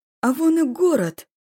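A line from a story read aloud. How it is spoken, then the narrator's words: Joyful exclamation. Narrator (Russian): Радостно воскликнул возница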